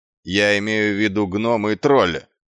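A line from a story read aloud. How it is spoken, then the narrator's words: Barking snap. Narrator (Russian): рявкнул Квирк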